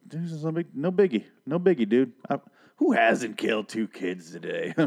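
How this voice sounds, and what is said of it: Usual voice. Nothing is said of it.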